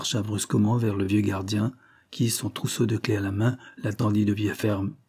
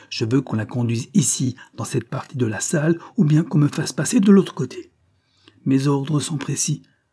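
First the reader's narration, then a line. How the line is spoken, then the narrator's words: Man exclaiming. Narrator (French): s'écria-t-il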